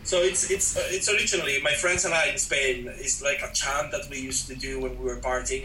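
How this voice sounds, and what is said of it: Noticeable foreign accent. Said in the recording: “In my accent, it rhymes perfectly”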